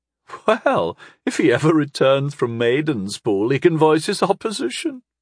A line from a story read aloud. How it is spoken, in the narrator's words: she chuckled